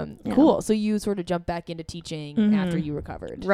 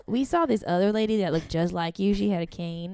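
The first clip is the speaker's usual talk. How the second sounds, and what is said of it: Put-on Southern American accent. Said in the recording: “I don't know why they have a southern accent again.”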